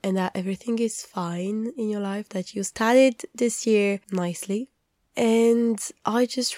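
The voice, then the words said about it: Slightly off voice from a cold. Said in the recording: “my weird voice because while I'm ill again, it's just a cold ... my voice sounds weird”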